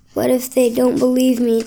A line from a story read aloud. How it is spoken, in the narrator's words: Chet asked